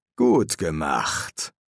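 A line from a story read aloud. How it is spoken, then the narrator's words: Gruff grumble. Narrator (German): brummte Crowley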